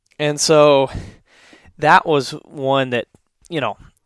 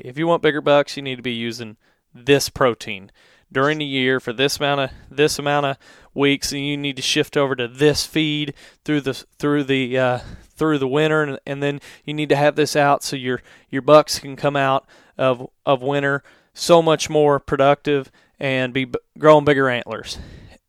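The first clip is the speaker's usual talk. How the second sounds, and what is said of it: Put-on old TV advertisement accent. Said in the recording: “you like my little accent there, Matt, for the 2002 advertising”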